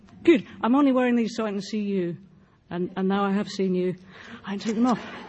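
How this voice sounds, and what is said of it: British accent. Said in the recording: “my foreign accent ... I'm from Britain”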